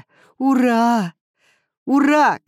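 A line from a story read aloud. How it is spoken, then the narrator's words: Shouting. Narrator (Russian): кричал я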